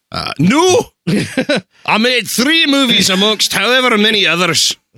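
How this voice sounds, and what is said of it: Poor imitation of Scottish actor's voice. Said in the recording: “do the accent ... That was horrible. ... He just sounded like fat bastard.”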